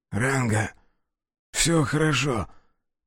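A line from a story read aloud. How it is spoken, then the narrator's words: Hoarse wheeze. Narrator (Russian): прохрипел тот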